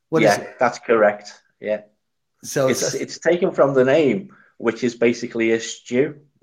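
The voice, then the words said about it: Scouse Liverpool accent. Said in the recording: “your accent. So they call you Scouse”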